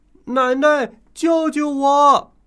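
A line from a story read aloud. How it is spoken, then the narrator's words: Little boy shouting loudly. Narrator (Chinese): 弟弟也跟着大声喊了起来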